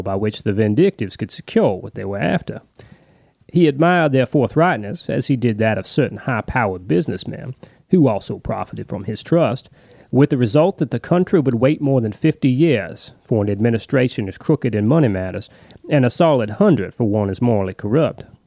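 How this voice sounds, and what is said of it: Shelby Foote Mississippi Southern accent impression. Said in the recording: “my ridiculous attempt to match Shelby Foote's accent ... he's a Southerner from Mississippi”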